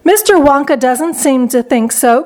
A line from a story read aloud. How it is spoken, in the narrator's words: cried Mrs